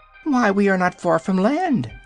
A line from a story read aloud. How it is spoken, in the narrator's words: exclaimed the hen